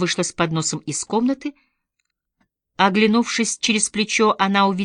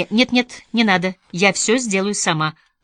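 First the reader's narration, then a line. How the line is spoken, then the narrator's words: Sharp objection. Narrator (Russian): резко возразила Элинор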